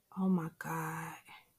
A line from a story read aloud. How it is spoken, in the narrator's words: she says softly